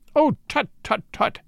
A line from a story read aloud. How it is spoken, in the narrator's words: he cried